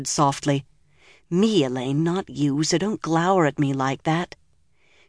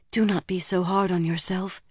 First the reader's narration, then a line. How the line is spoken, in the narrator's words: she whispered back